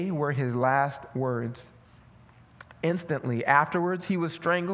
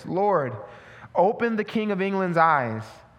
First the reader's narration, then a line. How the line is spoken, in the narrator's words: the reformer exclaimed in a loud and suppliant voice